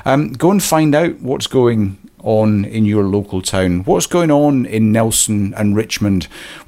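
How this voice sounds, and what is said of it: Voice going, slightly hoarse. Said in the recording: “my voice is going a little bit”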